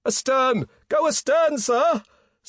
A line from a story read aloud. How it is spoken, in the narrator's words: screamed a man from the forecastle